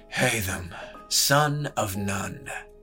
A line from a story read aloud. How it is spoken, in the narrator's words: came Elias's breathless murmur